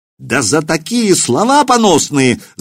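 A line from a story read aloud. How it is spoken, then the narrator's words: Yelling. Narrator (Russian): завопил Семирад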